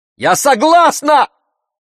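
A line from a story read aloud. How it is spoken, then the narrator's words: Desperate shout. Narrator (Russian): отчаянно закричала Зарина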